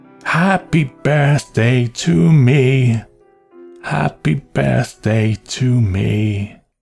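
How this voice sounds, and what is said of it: Soft, hoarse, miserable singing. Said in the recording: “began to sing softly, hoarsely, miserably.”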